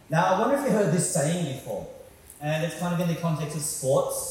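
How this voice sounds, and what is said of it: Australian accent. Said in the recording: “I'm from Australia, so that's what my weird accent's all about.”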